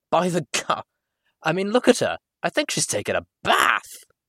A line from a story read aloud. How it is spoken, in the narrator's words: spat out his weapon and reiterated